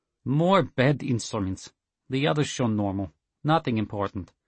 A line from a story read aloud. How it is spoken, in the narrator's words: the chief engineer said blandly, making sure everyone could hear